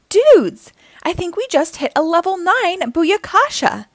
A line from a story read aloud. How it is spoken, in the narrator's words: exclaimed Mikey